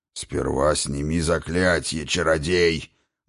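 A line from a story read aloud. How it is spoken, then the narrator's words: Muffled curt remark. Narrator (Russian): глухо бросил Двалин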